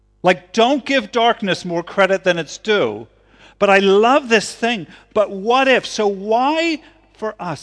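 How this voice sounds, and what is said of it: Yelling, loud preaching voice. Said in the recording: “Sorry, I'm yelling. ... See if I can not yell this next”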